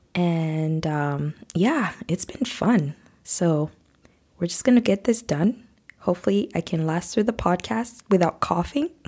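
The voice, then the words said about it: Deep, hoarse voice from a cold. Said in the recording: “you can tell from my voice, I sound a little bit deep toned today. And that's because I've been struggling with a cold and a cough”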